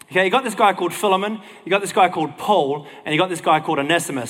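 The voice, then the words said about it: Australian accent. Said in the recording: “That's my Aussie accent doing it though.”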